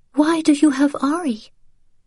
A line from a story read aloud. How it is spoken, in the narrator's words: she said in a quiet, frightened voice